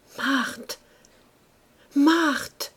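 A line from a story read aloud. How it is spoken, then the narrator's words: Stammering in despair. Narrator (French): bégaya-t-il encore avec désespoir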